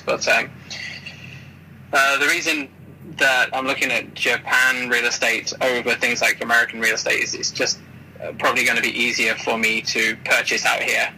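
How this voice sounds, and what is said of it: British accent. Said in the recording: “I'm a UK citizen, obviously. You can tell from my voice.”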